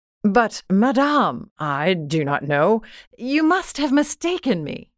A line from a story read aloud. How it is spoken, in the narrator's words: The other, astonished to be familiarly addressed by this plain goodwife, did not recognize her at all and stammered